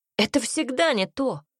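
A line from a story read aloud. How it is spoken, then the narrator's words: Furious exclamation. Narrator (Russian): воскликнул Альберт яростно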